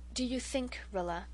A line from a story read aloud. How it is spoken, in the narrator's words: Mother said quietly, far too quietly